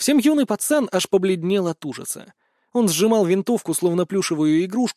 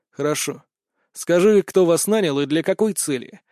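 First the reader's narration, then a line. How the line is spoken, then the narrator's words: Calm question. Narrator (Russian): спокойно спросил я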